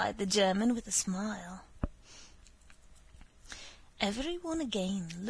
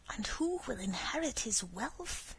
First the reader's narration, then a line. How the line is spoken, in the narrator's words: added in a whisper